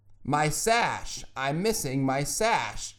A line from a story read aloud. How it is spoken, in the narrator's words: exclaimed a voice, filled with panic